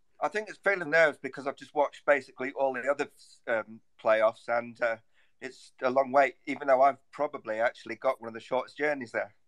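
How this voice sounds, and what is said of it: Distinctive accent. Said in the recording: “your wonderful accent ... the wonder that is ... accent”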